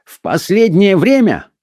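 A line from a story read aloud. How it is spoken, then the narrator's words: Venerable man shouting. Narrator (Russian): выкрикнул почтенный Фишер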